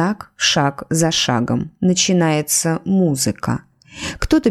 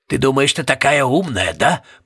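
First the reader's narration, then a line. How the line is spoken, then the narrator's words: Growl. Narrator (Russian): прорычал мистер Пуст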